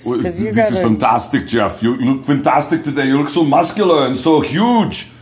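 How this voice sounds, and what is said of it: Arnold Schwarzenegger impression. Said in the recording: “I want to hear your Arnold voice. ... There are many better Arnolds than that.”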